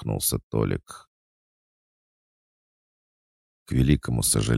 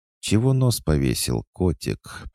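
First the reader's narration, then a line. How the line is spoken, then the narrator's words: Purring woman. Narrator (Russian): промурлыкала смуглая кореглазая брюнетка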